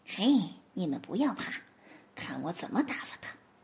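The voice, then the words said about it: Quiet, hushed voice. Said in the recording (Chinese): “小声的对自己的妻小说”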